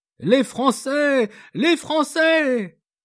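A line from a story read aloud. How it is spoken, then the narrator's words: Shouted. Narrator (French): criait Françoise en battant des mains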